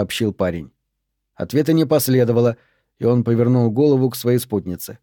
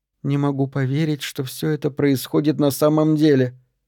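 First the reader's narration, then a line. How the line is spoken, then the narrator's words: Barely audible. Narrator (Russian): еле слышно выговорила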